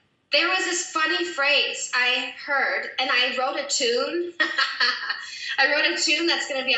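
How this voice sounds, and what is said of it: Usual voice. Nothing is said of it.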